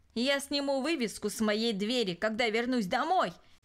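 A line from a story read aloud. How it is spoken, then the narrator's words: Shouted. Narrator (Russian): крикнул он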